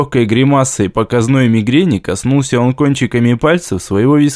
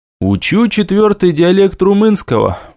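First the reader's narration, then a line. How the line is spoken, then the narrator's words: Brisk, cheerful report. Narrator (Russian): бодро отрапортовал я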